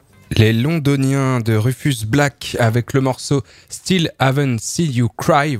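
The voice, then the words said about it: Put-on English accent. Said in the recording (French): “voilà pour mon plus bel accent”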